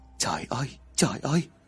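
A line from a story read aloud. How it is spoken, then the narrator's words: Muttering father. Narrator (Vietnamese): bố của gã miệng lẩm bẩm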